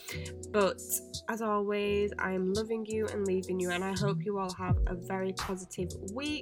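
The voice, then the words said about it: Croaky, strained voice. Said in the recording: “I feel I'm losing my voice, so apologies if it is a little bit croaky today.”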